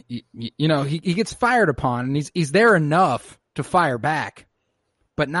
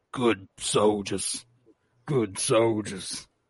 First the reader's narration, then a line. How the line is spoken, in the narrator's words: He begins to mutter